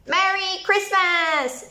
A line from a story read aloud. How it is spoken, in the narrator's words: shouted Izzy through her mouthful of chocolate